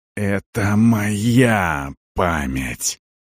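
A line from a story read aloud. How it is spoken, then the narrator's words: Angry hiss. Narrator (Russian): прошипел Арон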